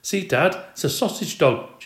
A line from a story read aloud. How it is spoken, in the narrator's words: she cried out